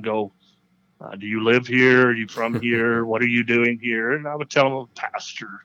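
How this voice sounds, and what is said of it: Speaks with a noticeable accent. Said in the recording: “they would hear my accent”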